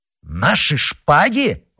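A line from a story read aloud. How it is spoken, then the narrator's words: Startled exclamation. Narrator (Russian): воскликнул Д'Артаньян, приходя в себя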